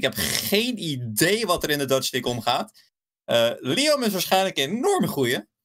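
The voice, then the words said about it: Belgian Dutch accent. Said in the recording (Dutch): “ik kom uit Belgisch bloed. ik heb Belgisch accent.”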